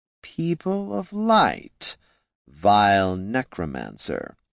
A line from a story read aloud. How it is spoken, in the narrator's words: he asked, amusement plain in his hollow voice